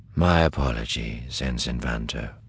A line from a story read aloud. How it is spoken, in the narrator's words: Thrawn said quietly